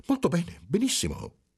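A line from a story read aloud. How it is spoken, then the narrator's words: Bewildered exclamation. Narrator (Italian): esclamò il segretario con aria sconcertata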